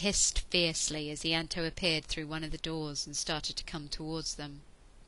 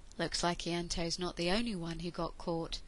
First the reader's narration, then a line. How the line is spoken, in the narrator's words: he said softly